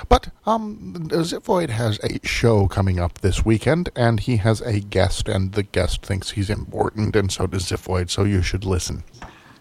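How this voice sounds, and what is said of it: Strained, failing voice. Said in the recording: “I'm losing my voice... I'm losing my voice.”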